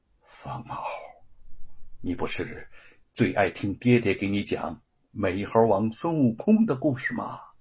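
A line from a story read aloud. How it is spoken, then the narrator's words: Soft, gentle. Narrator (Chinese): 他轻声的说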